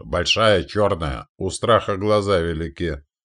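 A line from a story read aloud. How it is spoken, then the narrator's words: Sarcastic mocking snort. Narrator (Russian): вновь съязвила Татьяна, насмешливо фыркнув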